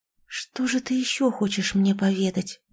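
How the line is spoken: Whisper. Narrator (Russian): прошептала Рива

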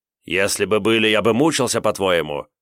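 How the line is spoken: Growled. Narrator (Russian): рыкнул Марс

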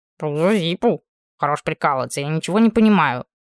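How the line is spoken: Growl. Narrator (Russian): прорычал четвертый

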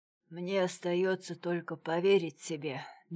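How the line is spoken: Quiet speech. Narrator (Russian): негромко сказал

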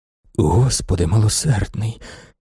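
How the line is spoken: Whispered. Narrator (Ukrainian): шепотів він

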